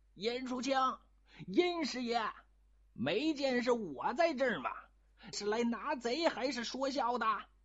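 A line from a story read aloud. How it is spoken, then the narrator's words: Flustered, garbled dialect. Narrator (Chinese): 他一着急，连绍兴话也说得不三不四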